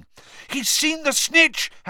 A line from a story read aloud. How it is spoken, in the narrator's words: Harry shouted